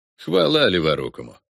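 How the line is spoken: Forced snort. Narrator (Russian): делано хмыкнул братец

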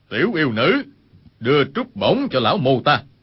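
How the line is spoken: Cold voice. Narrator (Vietnamese): một người lạnh lùng nói

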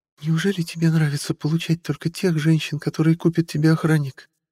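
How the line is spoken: Sarcastic whisper. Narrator (Russian): язвительно прошептала куртизанка

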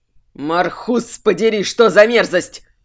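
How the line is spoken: Furious growl. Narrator (Russian): с яростью прорычал Варик Минош

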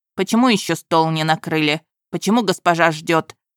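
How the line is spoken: Sharp curt remark. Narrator (Russian): резко бросил судья

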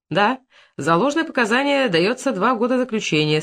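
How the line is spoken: Stern. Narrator (Russian): строго сказал судья

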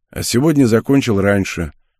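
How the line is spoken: Husky yet strong. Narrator (Russian): хрипловатым, но сильным голосом произнес Адриан

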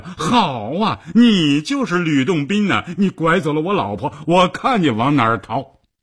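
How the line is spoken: Shouting. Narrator (Chinese): 郭马儿就喊道

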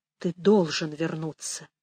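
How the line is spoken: Barely audible. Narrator (Russian): еле слышно выговорил Пэдди

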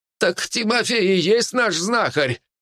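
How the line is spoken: Shout. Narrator (Russian): кто-то крикнул

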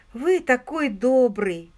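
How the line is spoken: Grateful exclamation. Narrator (Russian): воскликнула Пенни

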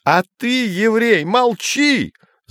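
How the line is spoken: Yelling. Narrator (Russian): заорал Гейгер

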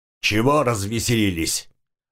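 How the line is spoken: Growling. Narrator (Russian): рыкнул на них хозяин

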